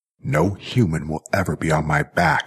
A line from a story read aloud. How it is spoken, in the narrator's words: snarled Jackie